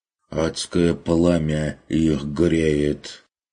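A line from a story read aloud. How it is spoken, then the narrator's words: Grumbling merchant. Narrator (Russian): пробурчал торговец Феликс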